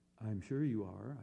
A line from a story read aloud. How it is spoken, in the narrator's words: I said soothingly